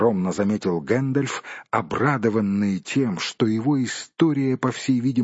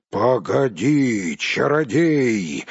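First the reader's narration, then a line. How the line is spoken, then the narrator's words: Roar. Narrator (Russian): взревел Бьорн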